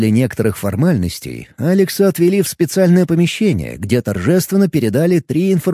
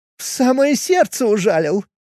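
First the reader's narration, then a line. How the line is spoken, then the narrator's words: Laughing. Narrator (Russian): рассмеялась Клариса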